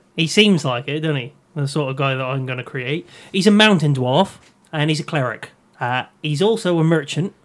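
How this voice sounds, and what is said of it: Put-on Norfolk drifting West Country accent. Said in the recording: “I'm going to go with a Norfolk accent ... It's gone West Country ... it's gone really West Country”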